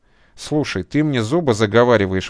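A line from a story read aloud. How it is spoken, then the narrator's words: Indignant exclamation. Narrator (Russian): воскликнул возмущенно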